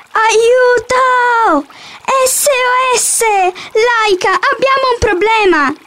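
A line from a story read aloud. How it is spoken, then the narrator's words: Shouting. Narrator (Italian): gridò Otello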